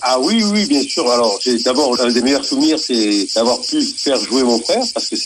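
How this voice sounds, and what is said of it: Southern French Var accent. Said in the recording (French): “l'accent est là, malheureusement ... L'accent est là, heureusement, parce que voilà, le Var, ça fait partie de cette région PACA”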